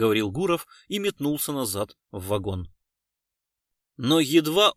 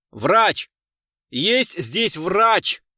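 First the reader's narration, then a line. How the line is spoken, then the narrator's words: Shouting at top of lungs. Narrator (Russian): Во все горло закричал Гуров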